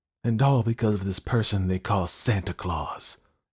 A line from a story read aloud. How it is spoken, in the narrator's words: exclaimed the demon of envy